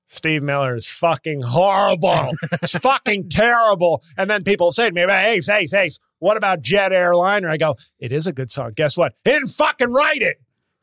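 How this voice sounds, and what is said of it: Imitates another person's voice. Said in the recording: “go into Adam Carolla mode ... doing an Adam Carolla impression, ... I think that might have been the best one I've ever done.”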